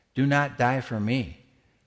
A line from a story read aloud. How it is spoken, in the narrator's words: the voice said